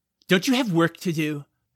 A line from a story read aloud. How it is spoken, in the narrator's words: Jack snapped